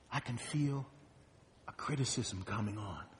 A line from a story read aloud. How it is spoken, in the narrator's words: Lucy calmly answers